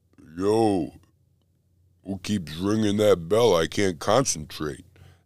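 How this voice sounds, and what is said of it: Imitates a film character's voice. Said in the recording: “That was my Rocky impression.”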